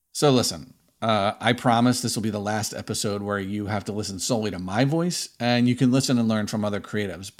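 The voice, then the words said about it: Northeast Philadelphia accent. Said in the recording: “I grew up in Northeast Philly. You may have noticed from my accent”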